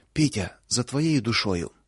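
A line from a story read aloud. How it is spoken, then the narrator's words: Breathless exhale. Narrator (Russian): только и выдохнула Луша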